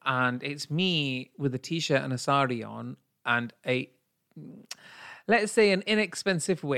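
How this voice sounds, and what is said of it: Usual voice. Nothing is said of it.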